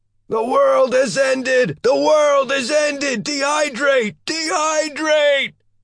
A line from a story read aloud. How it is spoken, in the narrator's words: the knight shouted